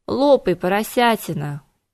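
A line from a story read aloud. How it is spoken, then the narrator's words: Exhausted grumbling. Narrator (Russian): измученно проворчала Кира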